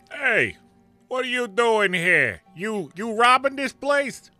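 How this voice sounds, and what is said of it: Bad Canadian-tinged Brooklyn accent. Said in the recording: “a terrible Canadian-impacted Brooklyn accent”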